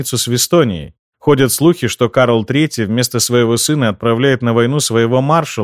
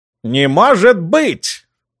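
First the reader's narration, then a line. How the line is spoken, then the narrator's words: Shrill exclamation. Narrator (Russian): визгливо воскликнул он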